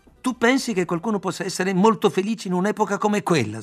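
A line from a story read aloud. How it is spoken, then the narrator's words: Outburst. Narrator (Italian): sbottai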